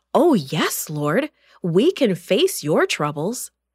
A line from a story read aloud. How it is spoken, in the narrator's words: Eagerly, James and John answered